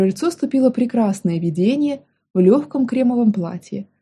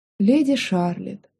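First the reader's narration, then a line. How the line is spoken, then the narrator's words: Heavy sigh. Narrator (Russian): тяжело вздохнул Алис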